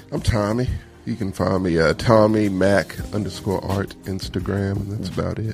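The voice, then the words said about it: Sad, downcast voice. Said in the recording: “do you sound so sad?”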